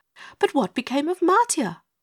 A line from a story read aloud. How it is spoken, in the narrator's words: asked Glinda, leaning forward eagerly